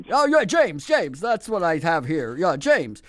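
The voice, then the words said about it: Silly put-on prank caller voice. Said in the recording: “stupid voice”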